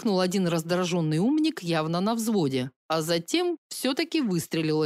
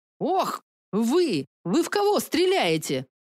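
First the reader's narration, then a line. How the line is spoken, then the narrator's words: Displeased exclamation. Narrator (Russian): Недовольно воскликнула Юнис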